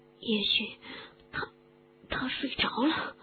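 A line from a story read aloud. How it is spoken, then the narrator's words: Panting. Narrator (Chinese): 哈利喘气着说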